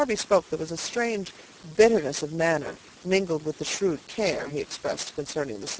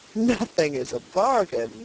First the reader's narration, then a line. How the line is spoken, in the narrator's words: said the purchaser with a chuckle